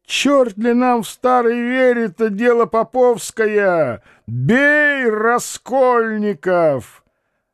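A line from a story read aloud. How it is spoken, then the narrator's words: Shout. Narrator (Russian): Кто-то крикнул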